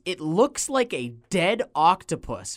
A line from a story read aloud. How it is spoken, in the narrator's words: Muffy screams